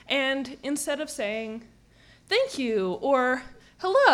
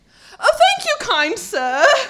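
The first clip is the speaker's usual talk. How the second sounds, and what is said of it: Put-on English accent. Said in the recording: “went full English accent ... pretend to have a British accent”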